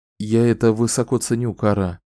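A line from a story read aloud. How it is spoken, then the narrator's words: Deep sigh. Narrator (Russian): глубоко вздохнул Ричард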